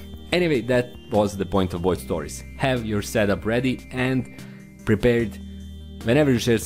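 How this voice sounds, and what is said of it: Usual voice. Nothing is said of it.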